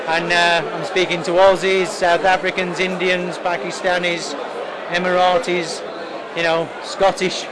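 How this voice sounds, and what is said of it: Yorkshire accent. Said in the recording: “your Yorkshire accent's”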